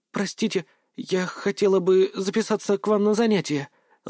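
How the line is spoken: Timid female voice. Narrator (Russian): робко произнес женский голос

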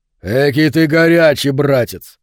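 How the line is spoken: Booming, bursting into laughter. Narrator (Russian): прогремел он, разразившись смехом

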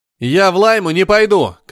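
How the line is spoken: Shouting. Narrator (Russian): кричал Стив

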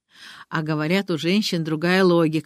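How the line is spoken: Loud laughing. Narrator (Russian): хохотал Микис

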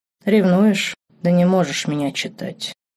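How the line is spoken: Thoughtful. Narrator (Russian): задумчиво произнес Марк

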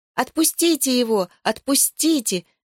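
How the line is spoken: Children shouting. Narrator (Russian): закричали дети

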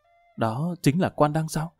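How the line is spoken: Soft. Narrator (Vietnamese): Đại tiểu thư khẽ giọng nói

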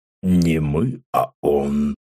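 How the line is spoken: Weighty bass objection. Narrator (Russian): солидно возразил Рустам своим басом

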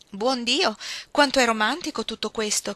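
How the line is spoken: Burst out. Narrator (Italian): sbottò alla fine Jenny

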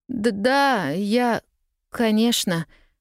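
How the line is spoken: Stammering mutter. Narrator (Russian): запинаясь, пробормотала Полианна

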